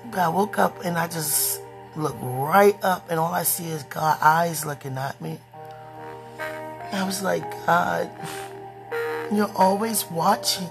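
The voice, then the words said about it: Hoarse voice. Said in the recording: “excuse my voice, I'm always hoarse”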